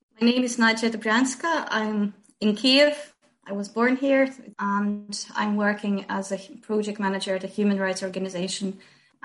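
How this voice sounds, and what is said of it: Slight Irish-tinged accent. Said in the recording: “a little bit of Irish in ... accent”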